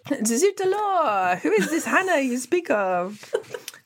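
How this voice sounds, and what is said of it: Bad put-on French accent. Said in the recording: “Sorry, French people, that was a very bad accent.”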